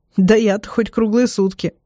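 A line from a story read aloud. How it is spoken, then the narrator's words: Giggling. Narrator (Russian): хихикаю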